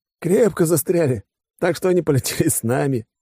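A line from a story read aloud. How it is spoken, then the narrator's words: Giggling. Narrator (Russian): хихикнул Бонд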